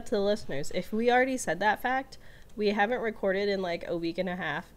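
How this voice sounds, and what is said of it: Sick-sounding voice. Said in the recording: “I was sick. Uh, I'm sure you can still hear it in my voice.”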